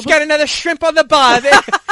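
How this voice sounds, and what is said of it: Bad put-on Australian accent. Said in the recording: “a really crappy Australian accent”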